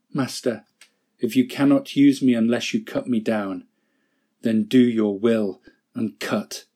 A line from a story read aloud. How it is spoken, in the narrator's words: came a whisper